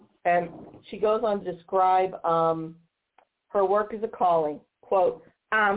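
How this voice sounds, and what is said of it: Usual voice. Nothing is said of it.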